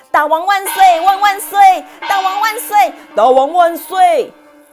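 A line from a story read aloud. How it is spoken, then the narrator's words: Loud shouting. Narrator (Chinese): 并大声呼喊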